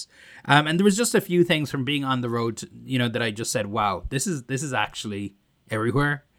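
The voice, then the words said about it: Irish accent. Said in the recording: “my Irish accent, with the THs”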